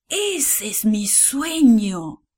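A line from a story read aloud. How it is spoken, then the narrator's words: King's exclamation. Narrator (Spanish): exclamó el rey Nabucodonosor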